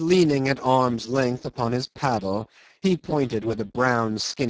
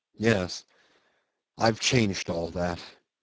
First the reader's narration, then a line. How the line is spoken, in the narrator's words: he muttered in a gloomy voice